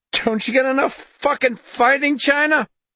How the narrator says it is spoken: Jacobs screamed

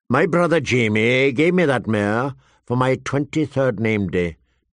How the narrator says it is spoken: Tyrion said in a flat voice

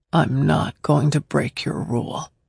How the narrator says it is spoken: he said, his voice broken

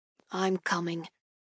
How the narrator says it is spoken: he grumbles under his breath, seemingly unconvinced

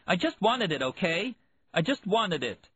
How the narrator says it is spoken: She yelled

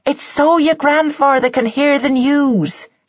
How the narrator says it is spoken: shouted Mrs

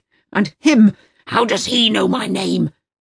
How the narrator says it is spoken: Uwe roars, the veins on his forehead bulging

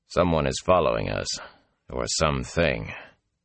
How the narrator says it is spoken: Lan said quietly

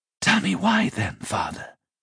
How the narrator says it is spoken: laughed

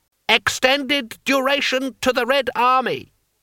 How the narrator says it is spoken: Cries rose up here and there in the crowd

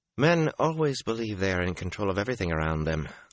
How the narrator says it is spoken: Avienda replied

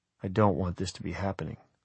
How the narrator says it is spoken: I said softly

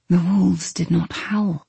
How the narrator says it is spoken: Telegonus whispered

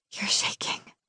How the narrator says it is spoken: whisper

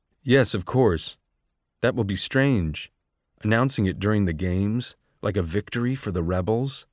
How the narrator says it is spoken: said Coriolanus

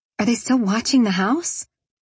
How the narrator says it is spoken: I asked while I nervously bit my fingernail

